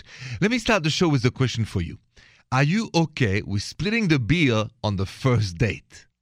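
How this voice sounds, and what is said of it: Parisian French accent. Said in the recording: “The accent is straight from Paris, French.”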